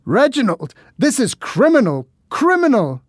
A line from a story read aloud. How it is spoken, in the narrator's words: the man shouted after me